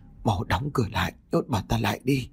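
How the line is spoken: Trembling. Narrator (Vietnamese): Ông Tám run rẩy nói

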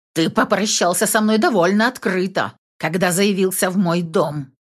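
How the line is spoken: Heated growl. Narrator (Russian): прорычала я, чувствуя, как меня бросило в жар

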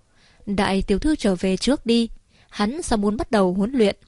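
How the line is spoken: Smiling. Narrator (Vietnamese): Lâm lão hai mắt mỉm cười mở miệng nói

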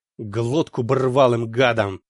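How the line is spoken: Through gritted teeth. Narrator (Russian): сквозь зубы процедил блондин Лёха

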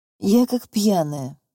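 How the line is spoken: Sighing. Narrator (Russian): вздохнула

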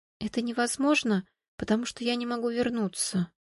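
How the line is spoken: Whispered. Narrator (Russian): прошептала Виталина

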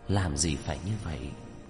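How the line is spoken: Sighing. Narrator (Vietnamese): Tinh Nguyệt Nô thở dài

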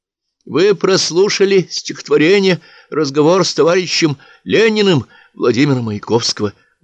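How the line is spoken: Trembling announcement. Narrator (Russian): дрожащим голосом объявил Марк

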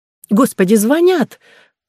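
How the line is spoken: Cried out. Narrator (Russian): вскрикнула Клариса

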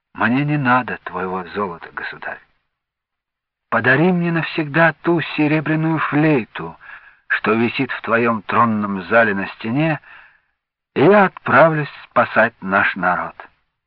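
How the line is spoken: Calm old man. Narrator (Russian): Старичок спокойно ответил

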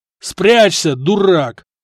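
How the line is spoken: Yelling brother. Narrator (Russian): заорал брат

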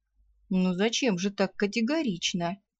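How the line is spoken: Gentle reproach. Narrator (Russian): мягко упрекнул ее Ралар

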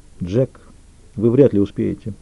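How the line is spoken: Quiet, dry objection. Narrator (Russian): возразила она тихо, сухо

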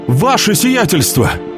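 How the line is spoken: Shouted. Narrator (Russian): закричал с порога

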